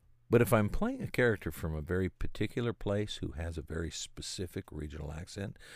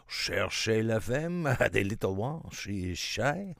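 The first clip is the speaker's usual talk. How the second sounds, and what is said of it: Put-on French accent. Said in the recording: “Oh, perhaps it is more romantic, eh? The French accent.”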